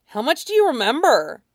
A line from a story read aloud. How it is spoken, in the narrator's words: the kid asked eagerly